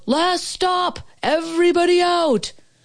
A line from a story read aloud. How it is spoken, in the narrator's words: Somebody yelled